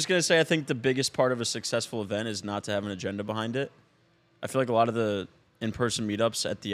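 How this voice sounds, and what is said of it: Usual voice. Nothing is said of it.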